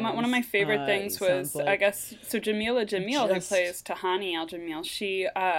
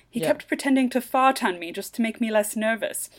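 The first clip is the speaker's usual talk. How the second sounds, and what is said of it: Put-on British accent. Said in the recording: “I'm going to read it in a British accent”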